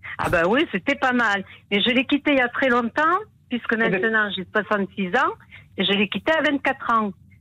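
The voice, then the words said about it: Southwestern French regional accent. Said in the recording (French): “vous n'avez pas perdu l'accent ... mon accent, on l'a accepté”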